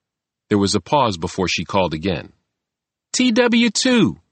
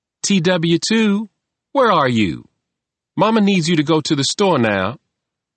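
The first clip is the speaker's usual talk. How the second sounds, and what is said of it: Pleasant Southern woman's accent. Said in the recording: “a woman called in a pleasant southern accent”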